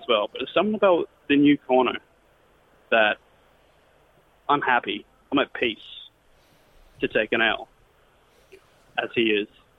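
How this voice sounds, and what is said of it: Irish accent. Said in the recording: “Like the Irish accent there, it's always nice to have a bit of a different flavour.”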